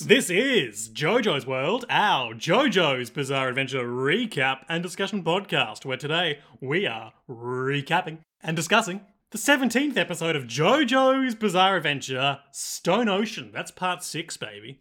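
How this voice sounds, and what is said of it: Exaggerated radio announcer voice. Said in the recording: “Doing my radio voice. ... Is this your radio voice? Coming to you live from a helicopter?”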